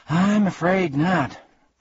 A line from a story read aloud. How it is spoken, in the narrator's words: admitted Milo